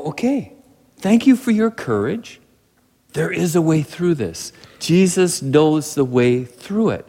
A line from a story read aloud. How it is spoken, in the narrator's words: We sit there calmly and go